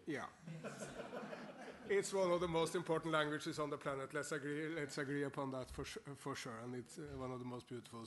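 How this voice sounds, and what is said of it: Norwegian-accented English. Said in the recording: “my English with Norwegian accent”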